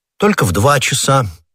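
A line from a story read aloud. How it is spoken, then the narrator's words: Said calmly as before. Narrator (Russian): все так же спокойно сказал Д'Артаньян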